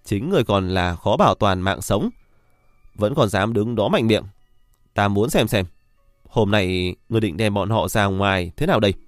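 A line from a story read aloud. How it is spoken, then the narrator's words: Gloating loud laugh. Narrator (Vietnamese): đắc ý cười lớn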